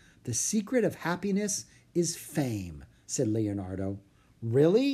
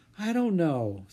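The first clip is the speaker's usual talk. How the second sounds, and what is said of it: Soft voice. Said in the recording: “said Jack in a soft voice.”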